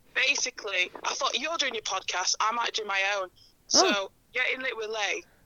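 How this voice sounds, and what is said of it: Husky voice. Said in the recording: “my voice is a bit husky”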